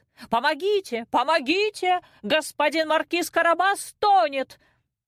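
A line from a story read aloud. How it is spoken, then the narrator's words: Sudden cat scream. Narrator (Russian): Вдруг кот как закричит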